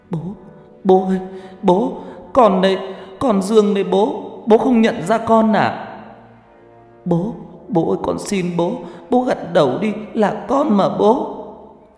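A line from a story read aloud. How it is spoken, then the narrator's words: Loud wailing sobs. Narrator (Vietnamese): gào khóc ầm ĩ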